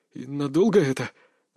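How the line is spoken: Tense young man. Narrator (Russian): напряженным голосом поинтересовался парень

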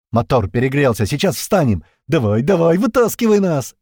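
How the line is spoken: Shouted. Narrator (Russian): Пьер прокричал уже машине

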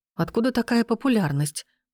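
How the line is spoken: Amazed mutter. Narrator (Russian): пробормотала в ответ я, все еще пребывая в изумлении

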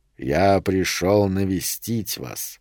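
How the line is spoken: Quiet wheezing voice. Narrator (Russian): сказал Питер Вернон тихим свистящим голосом

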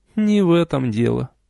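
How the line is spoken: Sighing. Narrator (Russian): вздохнула я

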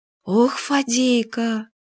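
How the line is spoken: Surprised sigh. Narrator (Russian): вздохнула Юля, но уже не насмешливо, а удивленно

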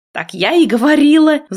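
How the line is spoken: Roaring. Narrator (Russian): взревела я

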